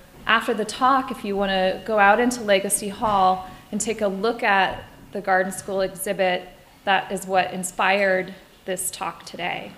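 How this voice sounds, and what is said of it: Slightly scratchy, hoarse voice. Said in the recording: “Forgive my voice, it's a little scratchy, and I've got a lozenger”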